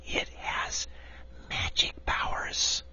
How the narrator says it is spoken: she added, dropping her voice to an awed whisper

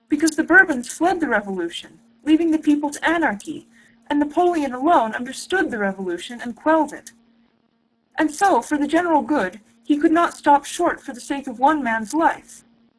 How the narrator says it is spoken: he continued desperately

